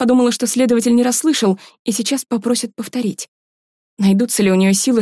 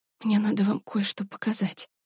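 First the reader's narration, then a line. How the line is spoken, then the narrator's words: Whisper. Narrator (Russian): прошептала Варя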